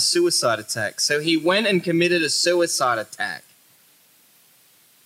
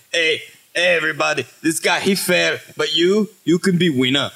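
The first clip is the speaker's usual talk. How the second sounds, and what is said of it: Bad put-on Mexican accent. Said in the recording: “you sound like a bad Mexican accent.”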